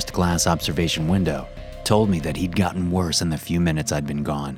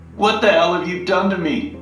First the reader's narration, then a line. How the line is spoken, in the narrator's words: He cried out